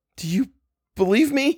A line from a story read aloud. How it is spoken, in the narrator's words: cried